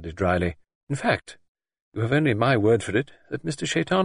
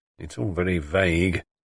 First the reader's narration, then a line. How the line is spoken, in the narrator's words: he grumbled